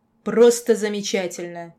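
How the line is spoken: Barked. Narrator (Russian): рявкнула

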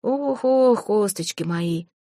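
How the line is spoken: Monster's hoarse wailing. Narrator (Russian): Хрипло причитало чудовище, с трудом

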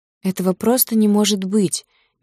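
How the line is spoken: Strained, unconscious utterance. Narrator (Russian): не замечая, что говорит вслух, выдавила из себя

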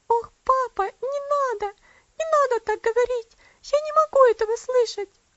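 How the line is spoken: Sobbing exclamation. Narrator (Russian): воскликнула она с рыданиями

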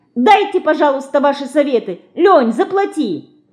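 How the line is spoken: Shout. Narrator (Russian): крикнула Динка

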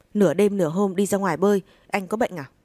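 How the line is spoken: Woman shouting, out of control. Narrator (Vietnamese): Cô quát lên với vẻ mất kiểm soát

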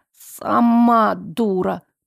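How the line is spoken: Muttered. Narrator (Russian): пробормотала подруга

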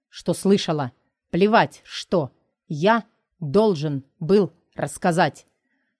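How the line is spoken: Through gritted teeth. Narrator (Russian): Сквозь зубы проговаривает Тайлер

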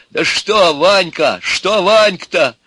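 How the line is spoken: Exclaimed. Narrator (Russian): воскликнул Иван

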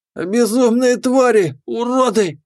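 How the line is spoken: Hoarse rasp. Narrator (Russian): прохрипел капитан стражи

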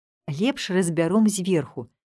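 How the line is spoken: Plain. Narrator (Belarusian): сказаў Мірон

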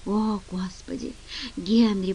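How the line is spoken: Groan. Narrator (Russian): простонал

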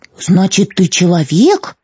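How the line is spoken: Exclamation in chorus. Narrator (Russian): хором воскликнули незнакомцы

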